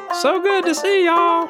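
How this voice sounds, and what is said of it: High-pitched put-on Southern accent. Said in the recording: “podcast voice ... it's a southern one too ... Was it high pitched? Was it southern or was it both? ... It was both.”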